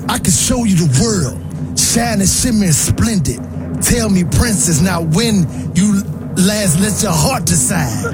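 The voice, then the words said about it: Rapping in imitated rapper's voice. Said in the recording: “I'm going to rap these lyrics in my best Yo Gotti voice”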